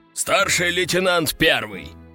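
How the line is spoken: Growl. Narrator (Russian): рыкнул Лежаков

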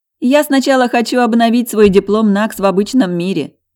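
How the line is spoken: Laughing. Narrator (Russian): засмеялась Света

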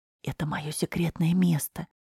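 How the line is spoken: Whisper. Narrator (Russian): шепотом произнес Егор

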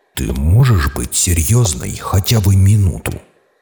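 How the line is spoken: Growled reply. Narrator (Russian): прорычал я в ответ

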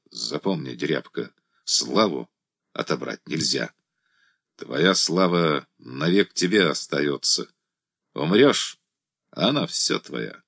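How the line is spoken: Quiet command. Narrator (Russian): приказал Андрей, сказал тихо

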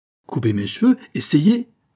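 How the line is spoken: Violent angry outburst. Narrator (French): s'écria Aimée, dont le tempérament violent se souleva à cette seule menace

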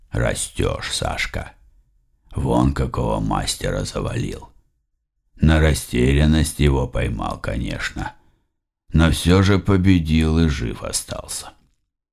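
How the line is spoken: Completely calm. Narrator (Russian): совершенно спокойно сказал

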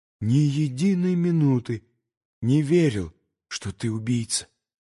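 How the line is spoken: Sudden trembling outburst. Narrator (Russian): вдруг вырвалось дрожащим голосом из груди Алеши

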